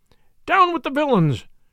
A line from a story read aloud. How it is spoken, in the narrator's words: cried Sir Stephen